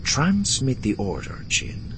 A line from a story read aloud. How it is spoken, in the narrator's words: he said, his tone suddenly thoughtful